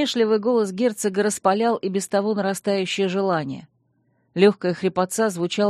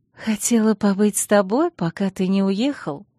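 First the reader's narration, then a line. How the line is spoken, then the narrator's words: Girl purring. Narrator (Russian): промурлыкала девушка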